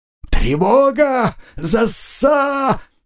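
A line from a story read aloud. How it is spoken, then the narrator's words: Yelling while struggling. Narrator (Russian): заорал нарушитель, не в силах вырваться из захвата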